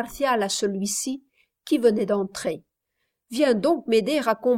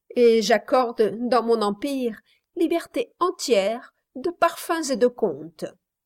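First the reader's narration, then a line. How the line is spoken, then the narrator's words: Laughing reply. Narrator (French): répliqua Flora en riant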